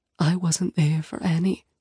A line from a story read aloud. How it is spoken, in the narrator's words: she whispers